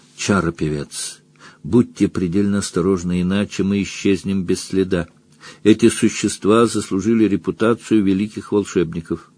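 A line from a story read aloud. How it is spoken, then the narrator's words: Whispering. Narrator (Russian): Яльвар прошептал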